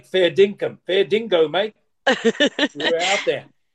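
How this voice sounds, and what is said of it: Weak put-on Australian accent. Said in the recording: “I better work on that Australian accent. That Australian accent needs a bit of work.”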